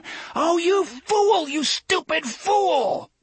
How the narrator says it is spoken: From a great distance, he heard Alan scream

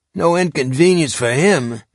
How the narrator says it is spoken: Pete grumbled

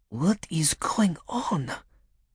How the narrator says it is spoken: She breathed

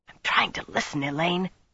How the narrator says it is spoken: she whispered

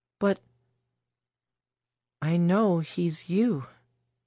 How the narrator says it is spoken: Alice said weakly

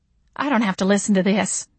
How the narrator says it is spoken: Mama snarled

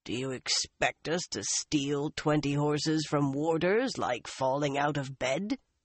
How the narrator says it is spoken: Uno growled

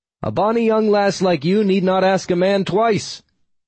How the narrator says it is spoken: I shouted back, hoping her ancient ears understood me

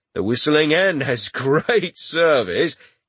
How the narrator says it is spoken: he said with a laugh

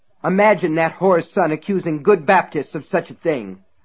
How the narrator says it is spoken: Reverend Rose had spat at an equally surprised Norman Harper and Don Hemphill

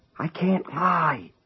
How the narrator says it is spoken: he whispered into the telephone

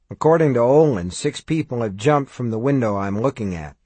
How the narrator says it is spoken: he said

